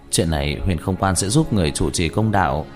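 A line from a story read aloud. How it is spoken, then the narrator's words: Plain. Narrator (Vietnamese): Trương Vân nói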